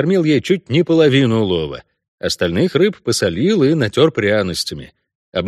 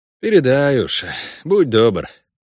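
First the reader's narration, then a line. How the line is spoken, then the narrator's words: Sighing. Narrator (Russian): вздохнул я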